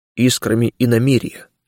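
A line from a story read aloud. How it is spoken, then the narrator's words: Quiet spirit answering. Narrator (Russian): ответил тихо дух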